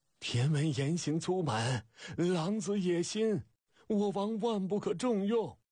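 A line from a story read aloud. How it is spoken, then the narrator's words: Sudden hoarse crying wail. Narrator (Chinese): 陈丁突然嘶声哭喊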